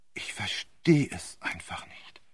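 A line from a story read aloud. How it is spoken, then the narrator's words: Whispered repetition. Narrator (German): im Flüsterton wiederholte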